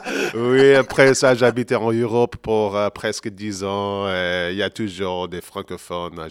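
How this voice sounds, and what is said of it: Belgian French accent. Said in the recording (French): “Tu as parfaitement l'accent belge.”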